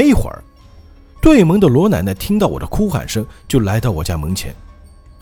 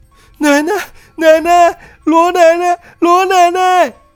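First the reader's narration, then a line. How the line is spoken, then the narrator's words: Desperate breaking shout. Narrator (Chinese): 崩溃的大喊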